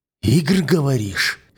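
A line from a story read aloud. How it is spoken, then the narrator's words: Hoarse angry question. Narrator (Russian): хрипло спрашиваю я, чувствуя, как в висках гнев пульсирует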